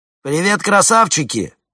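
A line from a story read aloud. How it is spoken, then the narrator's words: Shouted. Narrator (Russian): заорал один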